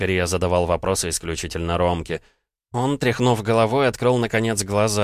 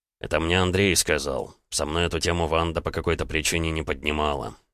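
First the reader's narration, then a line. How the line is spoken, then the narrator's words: Quiet reply. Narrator (Russian): тихо ответил Ромка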